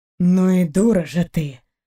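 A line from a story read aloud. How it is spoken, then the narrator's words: Nearby grumble. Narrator (Russian): проворчали рядом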